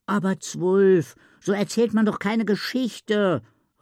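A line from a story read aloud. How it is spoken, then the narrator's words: Called out. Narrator (German): rief Isabella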